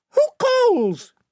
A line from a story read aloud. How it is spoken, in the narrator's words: piped